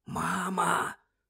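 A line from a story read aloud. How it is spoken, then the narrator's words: Whispered. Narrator (Ukrainian): прошепотів Джордж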